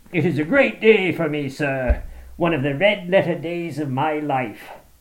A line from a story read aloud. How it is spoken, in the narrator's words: he cried with many chuckles